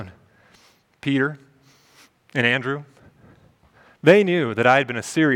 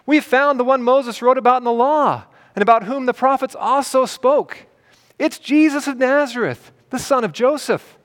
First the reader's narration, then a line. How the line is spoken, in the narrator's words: cried out